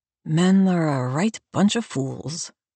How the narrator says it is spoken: Abigail mutters

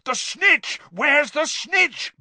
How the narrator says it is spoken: bellowed Charlie along the row

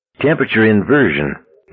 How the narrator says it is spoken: Bradley said grimly

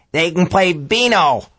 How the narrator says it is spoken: old Frank cackled

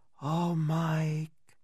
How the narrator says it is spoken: a voice whispered, mourned almost

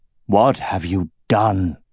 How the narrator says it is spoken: he said, his voice hollow and strained

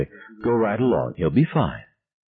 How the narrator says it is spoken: Young said very quietly

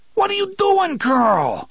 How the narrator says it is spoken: O'Meara screamed

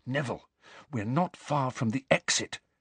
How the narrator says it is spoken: Harry whispered

